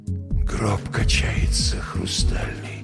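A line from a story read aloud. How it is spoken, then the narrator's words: Whisper. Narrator (Russian): прошептал я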